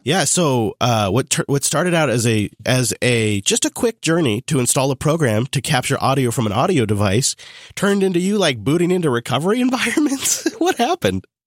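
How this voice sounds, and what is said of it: Hoarse, losing voice. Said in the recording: “I'm losing my voice.”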